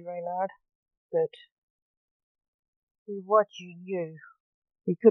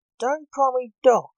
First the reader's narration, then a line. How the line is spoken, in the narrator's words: snapped Blake